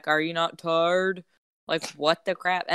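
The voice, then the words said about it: Imitates another person's voice. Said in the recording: “A very good impersonation of him ... he does not sound like that ... He sounds a lot more country than that.”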